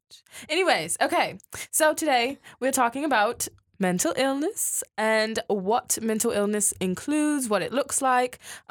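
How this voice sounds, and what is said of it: Put-on British accent. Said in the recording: “I am talking in a British accent. ... I'm practicing for an audition ... Next week, I will be back to normal.”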